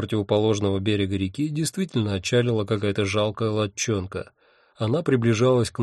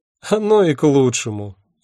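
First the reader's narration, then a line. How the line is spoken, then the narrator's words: Sudden loud laughter. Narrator (Russian): неожиданно расхохоталась она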